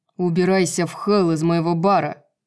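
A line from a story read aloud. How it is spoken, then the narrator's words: Low growl. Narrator (Russian): Негромким рычанием ответил ей Рун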